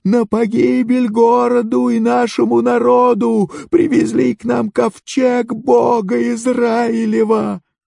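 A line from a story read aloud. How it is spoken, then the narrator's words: Crowd wailing in terror. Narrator (Russian): все жители завопили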